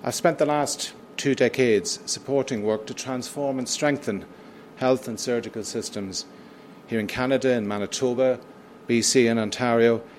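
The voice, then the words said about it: British accent. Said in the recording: “as my accent is a giveaway, in the United Kingdom.”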